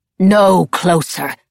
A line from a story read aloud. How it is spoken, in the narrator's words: Lavoisin snarled